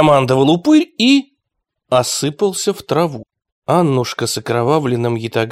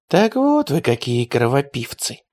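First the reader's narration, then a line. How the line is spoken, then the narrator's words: Whisper. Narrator (Russian): прошептала девушка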